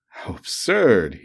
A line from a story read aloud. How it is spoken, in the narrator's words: he cried